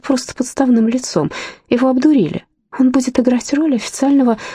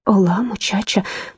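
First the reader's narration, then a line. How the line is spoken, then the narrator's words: Whispered. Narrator (Russian): прошептала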